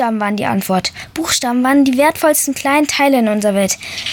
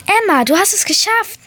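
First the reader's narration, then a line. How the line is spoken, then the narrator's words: Called out. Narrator (German): rief meine erste Letra-Möwe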